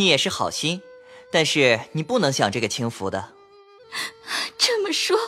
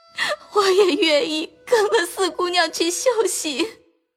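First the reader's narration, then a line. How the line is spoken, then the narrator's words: Sobbing uncontrollably. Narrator (Chinese): 袭人痛哭不止，说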